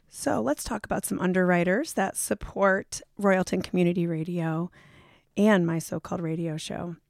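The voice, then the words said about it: Hoarse, strained voice. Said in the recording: “lost my voice, so I'm popping lots of throat lozenges”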